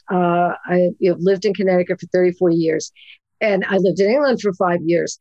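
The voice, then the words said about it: Brooklyn New York accent. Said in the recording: “every generic little Italian woman that who raised me in Brooklyn, New York, which you can still hear in my voice ... I still talk like this”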